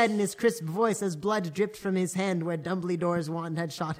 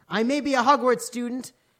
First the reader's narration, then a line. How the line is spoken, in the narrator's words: Hagrid paused angrily